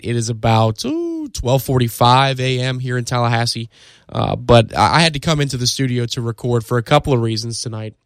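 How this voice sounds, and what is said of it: Slightly hoarse, fading voice. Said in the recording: “I am losing my voice a little bit as we go late into the night”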